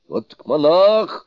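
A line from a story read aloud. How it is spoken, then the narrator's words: Group shouting. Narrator (Russian): закричали они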